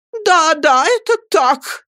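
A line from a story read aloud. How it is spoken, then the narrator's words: Shouting. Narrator (Russian): закричала миссис Гумидж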